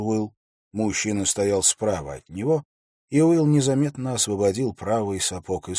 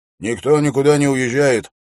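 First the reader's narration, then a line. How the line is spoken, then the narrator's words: Stern speech. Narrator (Russian): строго сказал часовой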